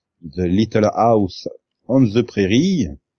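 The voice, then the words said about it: English words in heavy French accent. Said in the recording (French): “avec un bon accent français”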